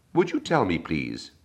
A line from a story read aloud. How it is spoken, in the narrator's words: said Alice, a little timidly